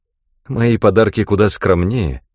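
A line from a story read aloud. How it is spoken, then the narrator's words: Sad, dejected. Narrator (Russian): прибавила она печально, подавленная крушением всех своих планов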